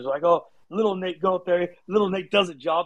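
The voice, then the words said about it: Put-on thick British accent. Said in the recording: “he would have that thick British accent”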